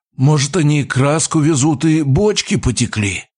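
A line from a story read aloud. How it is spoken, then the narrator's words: Hoarse wheeze. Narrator (Russian): просипел я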